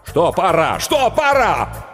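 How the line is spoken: Nervous shouting. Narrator (Russian): Букер нервно закричал

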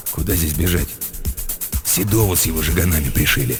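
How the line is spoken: Wary grumble. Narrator (Russian): Тот, опасливо, буркнул

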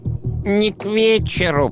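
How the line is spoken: Creaky voice. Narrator (Russian): проскрипел средний

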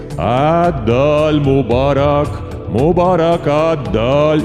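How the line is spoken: Chanting. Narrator (Russian): Святой отец повторял нараспев

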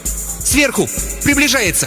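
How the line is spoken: Shout. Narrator (Russian): ученая крикнула

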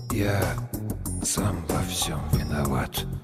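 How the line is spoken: Barely audible. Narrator (Russian): сказал едва слышно

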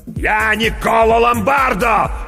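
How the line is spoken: Shouting. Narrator (Russian): закричал мастер

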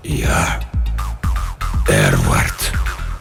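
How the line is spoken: Whispered. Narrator (Russian): прошептало то, что лежало на столе пыток

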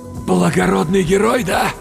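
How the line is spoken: Forced, strained. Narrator (Russian): выдавил я

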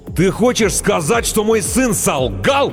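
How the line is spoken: Deafening roar. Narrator (Russian): Оглушительно взревел детина

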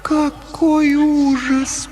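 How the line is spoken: Moaning. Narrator (Russian): простонала Лаура

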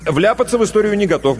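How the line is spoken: Quick reply. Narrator (Russian): быстро ответил Иванов

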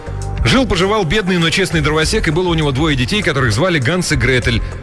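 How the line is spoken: Rapid nonstop patter. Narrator (Russian): без остановки протараторил

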